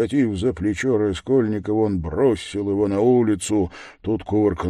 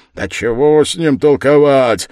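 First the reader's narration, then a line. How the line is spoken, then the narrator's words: Loud shout, burly man. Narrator (Russian): крикнул другой дворник, огромный мужик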